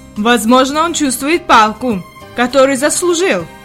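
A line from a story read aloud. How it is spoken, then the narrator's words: Plain, grandfather. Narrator (Russian): ответил дедушка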